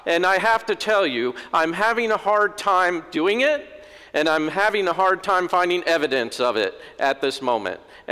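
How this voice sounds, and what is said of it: Upset, agitated speaking voice. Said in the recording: “I sound a little upset”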